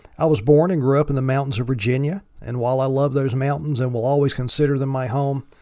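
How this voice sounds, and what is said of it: Thick Appalachian accent. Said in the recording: “my thick Appalachian accent”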